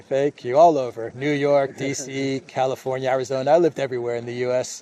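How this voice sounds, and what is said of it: American accent. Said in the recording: “You've got a very good American accent.”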